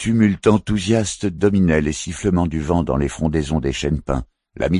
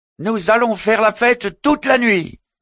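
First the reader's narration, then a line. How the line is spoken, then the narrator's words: Fisherman shouting. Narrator (French): cria le pêcheur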